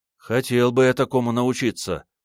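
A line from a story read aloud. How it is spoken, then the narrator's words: Dreamy sigh. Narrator (Russian): мечтательно вздохнул он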